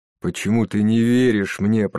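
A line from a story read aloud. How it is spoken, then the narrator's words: Moaning. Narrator (Russian): простонал Джейсон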